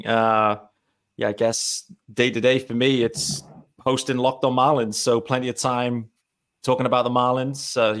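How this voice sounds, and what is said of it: British accent from Leeds. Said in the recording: “what is that accent? ... I'm based in the UK, in Leeds in the UK.”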